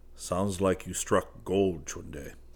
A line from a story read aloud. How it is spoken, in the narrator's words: Geronimo muttered